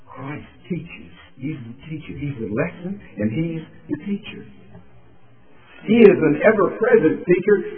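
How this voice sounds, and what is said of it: Virginia accent. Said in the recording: “you hear a Virginia accent”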